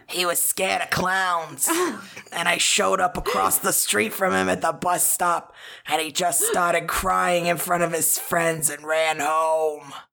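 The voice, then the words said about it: Put-on Boston accent. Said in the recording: “a really heavy, like, New England accent... Just, like a Boston kind of accent.”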